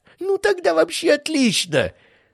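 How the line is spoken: Laughing. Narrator (Russian): рассмеялся Бражников

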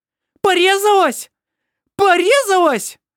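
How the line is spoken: Piercing scream. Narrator (Russian): пронзительно завопила Эбба

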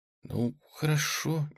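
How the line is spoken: Hesitant young woman. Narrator (Russian): неуверенно согласилась девушка

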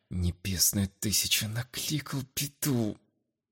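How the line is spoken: Annoyed mutter under breath. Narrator (Russian): С досадой пробормотал себе под нос молодой аристократ

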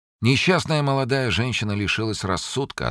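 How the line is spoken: Sad, smiling. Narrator (Russian): ответил он, грустно улыбаясь

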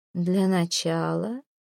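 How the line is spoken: Soft. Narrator (Russian): мягко произносит Эдвард

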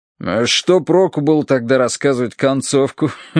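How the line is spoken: Snorting. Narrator (Russian): хмыкнул полковник

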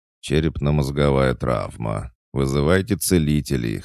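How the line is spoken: Wry grunt. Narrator (Russian): хмыкнул Толик

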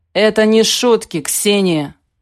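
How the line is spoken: Growling. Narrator (Russian): зарычал он

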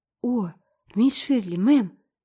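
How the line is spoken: Moaning. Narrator (Russian): застонала Шарлотта

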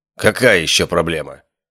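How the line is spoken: Irritated question. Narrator (Russian): раздраженно спросил Алистер

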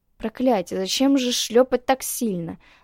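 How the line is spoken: Hissing. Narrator (Russian): зашипела

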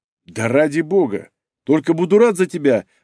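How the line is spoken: Laughing. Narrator (Russian): рассмеялся

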